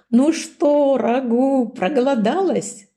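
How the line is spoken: Wolf asking, laughing. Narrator (Russian): смеясь спросил волк

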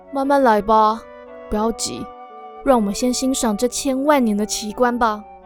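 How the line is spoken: Comforting. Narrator (Chinese): 丹影安慰他说

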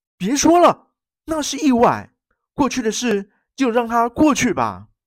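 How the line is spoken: Crying out. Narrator (Chinese): 亚森·罗平叫了出来

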